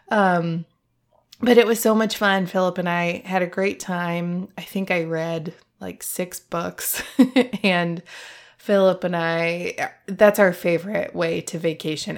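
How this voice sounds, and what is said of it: Voice sounds like a cold. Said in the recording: “You might hear in my voice, I picked up a little bit of a cough or a cold on the plane ... listening to me talk with a cold”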